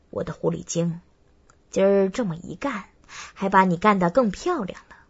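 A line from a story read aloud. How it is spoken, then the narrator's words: Laughing. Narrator (Chinese): 我笑道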